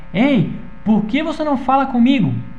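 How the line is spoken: Frustrated shout. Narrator (Portuguese): depois que a garota ignorou ele bastante, ele gritou

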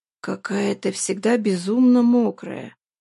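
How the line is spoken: Hoarse rasp. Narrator (Russian): прохрипел он

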